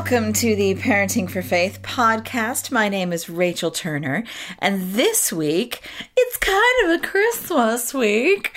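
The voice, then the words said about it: American accent. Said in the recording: “as the accent betrays me. As you know, I was born and raised American”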